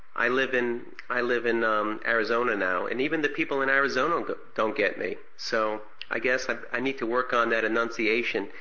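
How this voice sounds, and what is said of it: New York accent. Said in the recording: “I have a New York accent ... you're making fun of my New York accent by saying walk ... they never really went over the phonics in Brooklyn”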